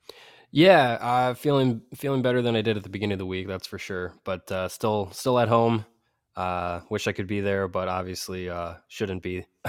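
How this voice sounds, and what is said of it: Voice sounds slightly ill. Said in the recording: “Hope you're feeling better, buddy ... You might hear it in my voice a little bit”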